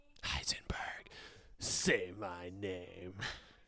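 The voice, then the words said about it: Walter White impression. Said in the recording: “Great, great impression. That was ... rendition of Brett's impression.”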